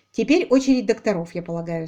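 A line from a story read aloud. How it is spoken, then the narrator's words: Plain. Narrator (Russian): сказал Айлик паперу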